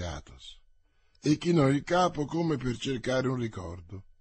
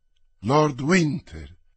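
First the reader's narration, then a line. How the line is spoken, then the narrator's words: Count's exclamation. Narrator (Italian): esclamò il conte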